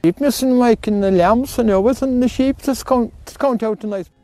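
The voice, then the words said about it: Very thick, hard-to-understand accent. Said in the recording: “even that guy's accent had an accent.”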